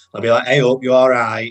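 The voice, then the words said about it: Imitated northern English accent. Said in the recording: “you do have a bit of a northern twang... my whole life I've been mimicking her... you do it so well”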